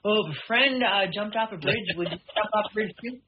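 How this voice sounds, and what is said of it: Impression of a scolding father. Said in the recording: “Your dad sounds a lot like me, by the way, with your impersonation.”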